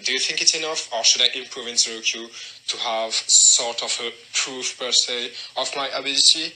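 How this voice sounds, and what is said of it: French accent. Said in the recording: “the amazing accent. I love French accents.”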